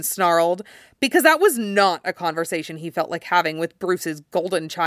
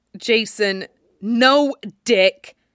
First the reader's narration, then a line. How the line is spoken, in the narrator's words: he snapped